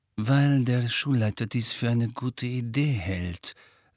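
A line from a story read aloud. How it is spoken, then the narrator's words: Gentle. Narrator (German): sagte Snape sanft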